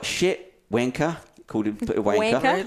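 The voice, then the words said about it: Put-on New Zealand accent. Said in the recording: “He said that with a New Zealand accent then.”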